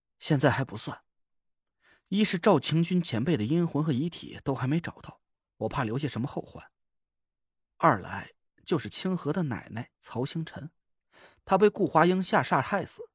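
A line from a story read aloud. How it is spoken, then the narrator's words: Sighing. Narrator (Chinese): 我叹了口气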